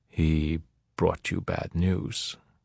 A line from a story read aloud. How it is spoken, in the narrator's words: Pinto said softly